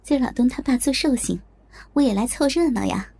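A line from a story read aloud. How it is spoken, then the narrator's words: Laughing. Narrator (Chinese): 我笑着说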